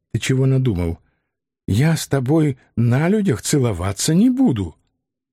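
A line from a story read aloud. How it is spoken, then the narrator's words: Whispered aside. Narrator (Russian): шепотом добавив мне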